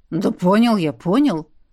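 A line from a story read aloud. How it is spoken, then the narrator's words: Grumbled. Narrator (Russian): пробурчал он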